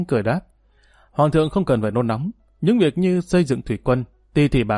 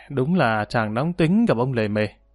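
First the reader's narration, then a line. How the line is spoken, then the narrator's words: Sighing lament. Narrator (Vietnamese): Trinh Đức thở dài than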